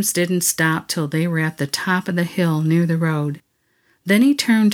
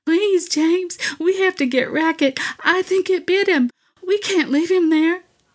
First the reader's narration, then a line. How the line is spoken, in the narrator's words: Missy was sobbing